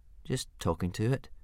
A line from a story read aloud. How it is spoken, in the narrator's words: mumbled Hiccup, very embarrassed